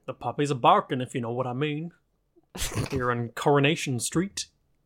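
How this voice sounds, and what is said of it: Bad Northern English accent, sounds American. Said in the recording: “Why did you say it in a weird American accent? ... I was trying for Northern, but I'm really bad at accents. ... I thought you were going for Southern American. ... I am very bad at accents”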